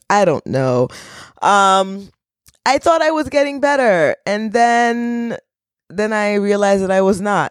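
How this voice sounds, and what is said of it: Low, scratchy voice from a cold. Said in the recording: “my voice is another octave lower. It's still a little scratchy ... cold, viral cold infection ... sniffling”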